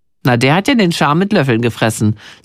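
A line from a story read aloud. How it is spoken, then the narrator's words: Plain. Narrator (German): sagt Ina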